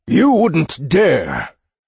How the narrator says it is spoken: bellowed Warhammer

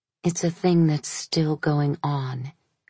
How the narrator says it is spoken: said in a whisper

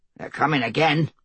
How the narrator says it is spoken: Bermond muttered

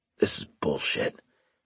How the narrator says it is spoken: Carlos muttered

